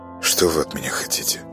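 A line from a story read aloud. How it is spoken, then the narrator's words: Muffled detached voice. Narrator (Russian): Голос почему-то прозвучал глухо и как-то отрешенно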